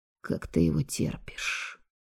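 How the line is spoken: Quiet question. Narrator (Russian): тихо спросил меня Роукс

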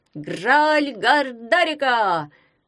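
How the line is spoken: Shouted in unison. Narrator (Russian): крикнули все разом

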